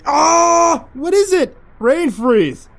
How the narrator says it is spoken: Jerry screamed

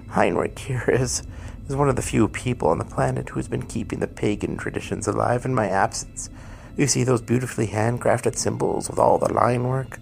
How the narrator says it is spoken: Krampus chuckled and said

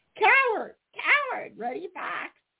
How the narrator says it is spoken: shrieked Sammy Jay

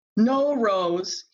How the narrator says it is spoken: he bellowed

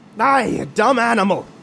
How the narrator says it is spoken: Anthony hollered

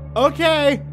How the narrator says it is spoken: I yelled back

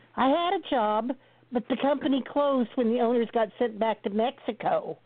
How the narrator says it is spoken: the old gal whined

